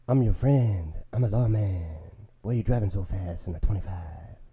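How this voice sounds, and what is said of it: Imitates another person's voice. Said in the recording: “this impression ... You like this Steven Seagal? ... I don't know how to do a Steven Seagal impression.”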